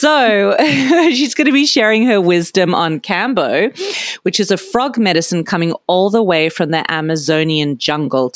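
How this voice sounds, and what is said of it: Unusual Australian accent. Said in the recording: “I'm Australian with a weird accent.”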